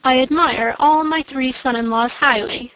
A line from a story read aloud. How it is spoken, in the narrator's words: said he